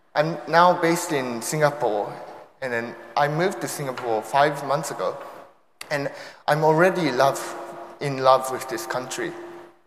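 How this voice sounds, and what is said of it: Mixed Japanese, American and British accent. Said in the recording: “I have a mixture of Japanese accent, American accent, British accent”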